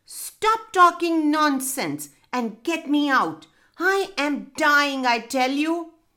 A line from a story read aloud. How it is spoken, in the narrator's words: Felix screamed